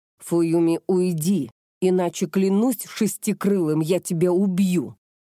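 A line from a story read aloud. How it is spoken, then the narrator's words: Growled. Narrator (Russian): Прорычал он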